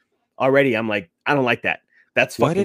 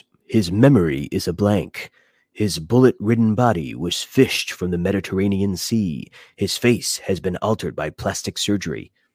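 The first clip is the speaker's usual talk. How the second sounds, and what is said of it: Movie trailer narrator voice. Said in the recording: “having COVID is you can tap into that ... Trailer voice.”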